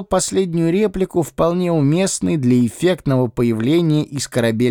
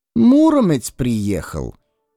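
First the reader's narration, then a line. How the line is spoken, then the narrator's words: Vague sigh. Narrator (Russian): неопределенно вздохнул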